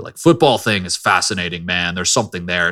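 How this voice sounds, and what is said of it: Impression of J-Mart. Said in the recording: “I'll do it in J-Mart voice too ... this is an unbelievable impersonation. This is unbelievable.”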